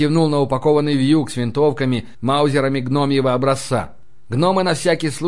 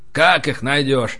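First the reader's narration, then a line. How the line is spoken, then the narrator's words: Sorrowful sigh. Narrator (Russian): вздохнул горестно Рари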